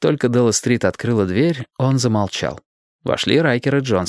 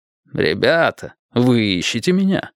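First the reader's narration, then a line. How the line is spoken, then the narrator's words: Laughing. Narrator (Russian): Джонсон рассмеялся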